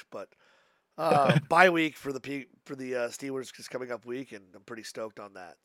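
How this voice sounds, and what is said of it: Hoarse, strained voice. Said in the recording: “my voice is completely fucked”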